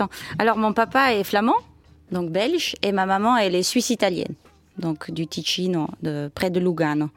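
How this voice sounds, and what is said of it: Slight foreign accent in French. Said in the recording (French): “vous avez un petit accent ... avec ce petit accent ? ... mon accent”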